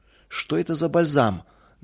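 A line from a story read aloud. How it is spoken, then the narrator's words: Deliberately rough question. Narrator (Russian): нарочито, грубо спросил мельник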